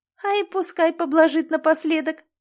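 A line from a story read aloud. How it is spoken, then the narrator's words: Giggling woman. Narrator (Russian): хихикнула женщина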